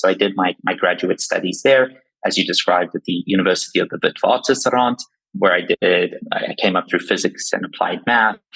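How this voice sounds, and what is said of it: South African accent, slightly Americanized. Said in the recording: “the accent you're hearing is actually from South Africa. So I get a lot of Australian, I get British occasionally, and every day a little bit more American.”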